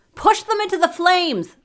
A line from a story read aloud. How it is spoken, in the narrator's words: I shouted